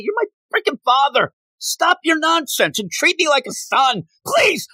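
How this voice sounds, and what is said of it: Yelling angrily. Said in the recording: “I'm yelling at my dad now”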